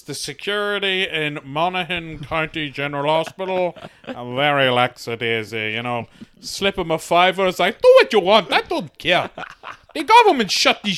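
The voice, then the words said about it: Imitates another person's voice. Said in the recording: “my impression of my mother”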